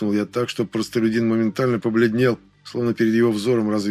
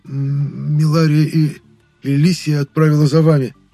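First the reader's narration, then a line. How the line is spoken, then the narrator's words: Forced out by servant. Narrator (Russian): выдавил из себя челядин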